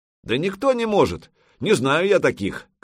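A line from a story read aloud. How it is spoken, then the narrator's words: Shout. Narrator (Russian): крикнул кто-то из игроков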